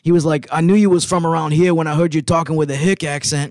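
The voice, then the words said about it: Imitated New York City accent. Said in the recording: “he called me in his New York City accent”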